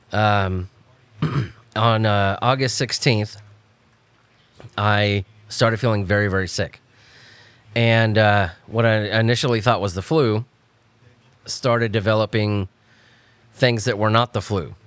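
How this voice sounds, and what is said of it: Sick-sounding voice. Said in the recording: “as you could probably hear from my voice ... I have contracted COVID”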